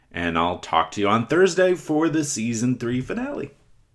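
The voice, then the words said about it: Voice rises to high pitch. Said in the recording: “Oh, my voice got real high there. What a range.”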